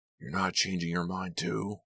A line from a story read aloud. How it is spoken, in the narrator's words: Lou snapped angrily